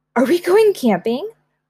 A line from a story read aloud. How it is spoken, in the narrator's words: Gwen asked excitedly